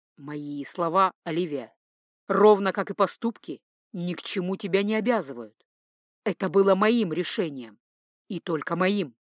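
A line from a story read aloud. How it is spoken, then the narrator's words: Firm voice. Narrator (Russian): твердым голосом заявил он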